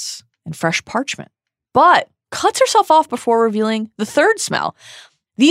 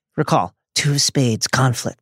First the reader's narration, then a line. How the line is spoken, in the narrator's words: she murmured